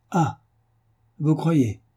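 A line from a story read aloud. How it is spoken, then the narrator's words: Bitter exclamation. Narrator (French): s'écria Lestrade avec une certaine amertume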